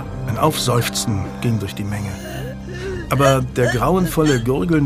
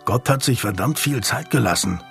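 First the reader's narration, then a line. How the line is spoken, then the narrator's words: Growl. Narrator (German): knurrte Daniel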